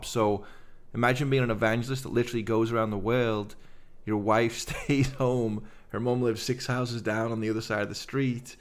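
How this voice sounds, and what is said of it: Liverpool English accent. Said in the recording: “laughing at my accent. Guys, I'm from Liverpool.”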